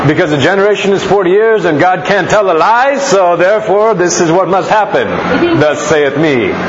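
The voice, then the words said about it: Preacher-style sermon voice. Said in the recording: “that's my preacher voice when I talk like this. This is how the preachers talk”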